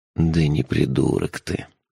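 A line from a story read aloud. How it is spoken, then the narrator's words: Soft. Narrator (Russian): мягко сказал сэр Шурф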